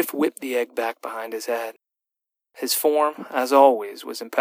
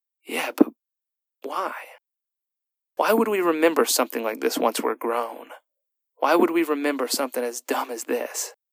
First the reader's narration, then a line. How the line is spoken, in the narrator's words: Her response, which she muttered